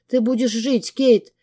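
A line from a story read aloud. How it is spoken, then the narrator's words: Tearful rapid chatter. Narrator (Russian): тараторила она сквозь слезы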